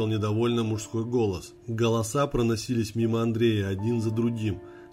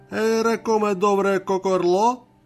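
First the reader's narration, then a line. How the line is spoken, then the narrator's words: Shrill squeaky male wail. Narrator (Russian): пискляво завопил другой мужчина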